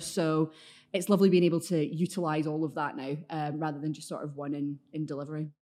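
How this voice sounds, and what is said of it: Glaswegian Scottish accent. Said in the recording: “you can tell by your accent, you're not a Manchester native ... keep the Glaswegian accent ... It's quite threatening when I want it to be”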